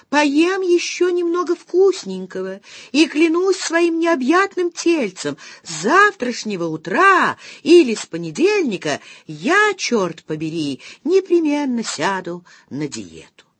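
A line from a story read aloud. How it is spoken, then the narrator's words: Sudden high-pitched chirping. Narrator (Russian): вдруг защебетал высоким голоском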